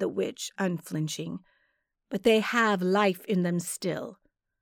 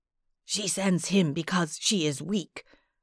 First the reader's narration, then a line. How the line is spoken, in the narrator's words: Bozpo rasped to me